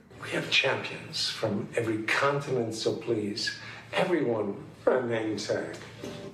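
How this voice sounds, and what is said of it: Christopher Walken impression. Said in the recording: “that was some good Christopher Walken there ... I've been working on my impression ... I have no idea what Christopher Walken said. Not one word I got there.”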